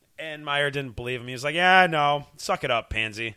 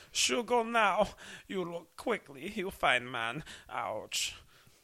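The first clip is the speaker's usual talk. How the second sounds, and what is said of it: Bad put-on German accent. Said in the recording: “just doing a bad German accent”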